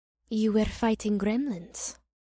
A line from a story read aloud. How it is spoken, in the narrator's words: she said, and her voice had a raspy quality that almost sounded like a purr